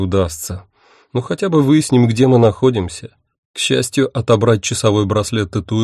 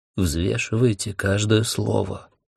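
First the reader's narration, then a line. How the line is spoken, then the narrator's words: Whispered warning, fat man. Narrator (Russian): шепотом предупредил толстяк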